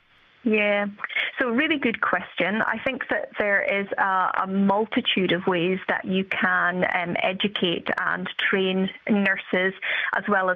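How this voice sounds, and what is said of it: British accent. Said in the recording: “you have worked clearly from your accent, ... with healthcare education both here and in the UK”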